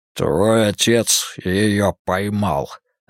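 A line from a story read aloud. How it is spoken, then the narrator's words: Growled. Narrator (Russian): рыкнула тень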